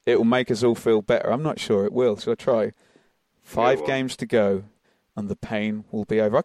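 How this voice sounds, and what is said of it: Attempted soothing voiceover delivery. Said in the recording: “repeated that in a soothing voice ... I can't do voiceover”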